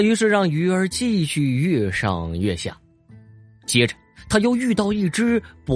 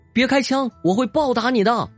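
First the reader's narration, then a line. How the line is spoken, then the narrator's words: Fish crying out. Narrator (Chinese): 鱼儿叫道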